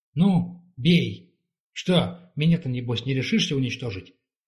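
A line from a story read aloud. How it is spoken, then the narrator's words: Angry exclamation. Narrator (Russian): Семидан гневно воскликнула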